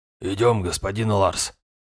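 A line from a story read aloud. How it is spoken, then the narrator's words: Quiet speech. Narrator (Russian): тихо проговорил Йорд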